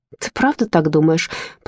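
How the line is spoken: Mumbled. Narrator (Russian): промямлила Ширли

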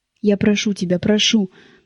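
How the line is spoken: Delirious tearful mumbling. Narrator (Russian): Как в бреду бормотала она, давясь слезами

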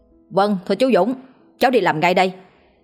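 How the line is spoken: Laughing loud shout. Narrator (Vietnamese): Hữu nghiêm cười hét to

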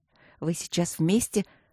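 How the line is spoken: Soft curious whisper. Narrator (Russian): прошептала я тихонечко, умирая от любопытства

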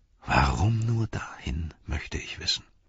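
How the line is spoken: Murmured. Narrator (German): murmelte er

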